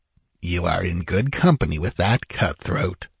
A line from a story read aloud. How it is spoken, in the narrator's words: murmured